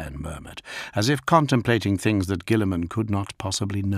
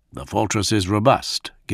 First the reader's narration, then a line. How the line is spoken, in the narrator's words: Gilliman went on, a little stiffly